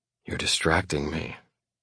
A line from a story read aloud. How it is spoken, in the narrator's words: I whisper